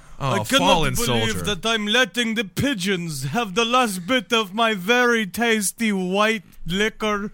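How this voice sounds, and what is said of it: Strange made-up foreign-sounding accent. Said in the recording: “That's an accent from a world that doesn't exist. That is not a country. I've never heard such a person speak in such a way.”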